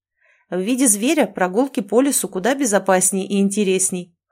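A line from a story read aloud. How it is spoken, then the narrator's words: Chuckle. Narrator (Russian): хохотнул Мертон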